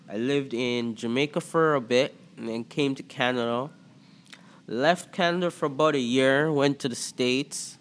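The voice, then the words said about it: Toronto accent. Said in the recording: “they'll be like, yo, you're from Toronto? I'm like, you could tell. They're like, yeah, your accent.”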